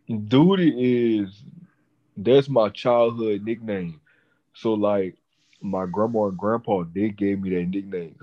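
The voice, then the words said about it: Speaks with a non-native accent. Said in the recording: “can you say it with your accent? Because I'm sure it sounds better that way... it does sound better that way”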